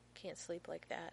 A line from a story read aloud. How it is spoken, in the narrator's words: he murmurs